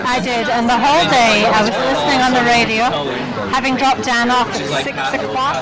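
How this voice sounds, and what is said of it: Scottish accent. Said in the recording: “the beautiful Scottish accent”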